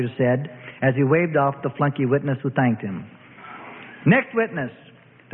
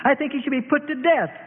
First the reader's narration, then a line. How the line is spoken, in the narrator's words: she blurted out in feigned rage